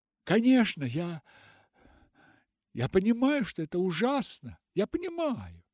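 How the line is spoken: Dejected voice. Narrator (Russian): начала Руфь упавшим голосом

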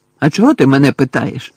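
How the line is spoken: Sharp question. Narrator (Ukrainian): різко перепитав Гаррі

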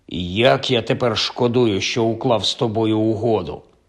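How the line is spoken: Grumbled. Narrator (Ukrainian): Кальцифер буркнув

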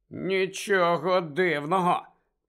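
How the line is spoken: Hiss. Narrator (Ukrainian): прошипів Рон

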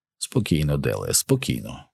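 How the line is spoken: Quiet rough murmur. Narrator (Ukrainian): тихо промурмотів брутальник

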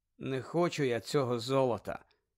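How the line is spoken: Indifferent voice. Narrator (Ukrainian): байдужим голосом сказав Гаррі

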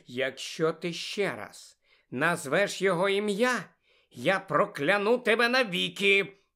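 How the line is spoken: Menacing hiss. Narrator (Ukrainian): загрозливо прошипіла Тонкс

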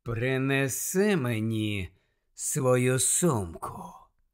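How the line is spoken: Silky command. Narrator (Ukrainian): шовковим голосом звелів Снейп

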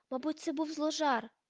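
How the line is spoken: Exclamation. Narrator (Ukrainian): вигукнула Герміона

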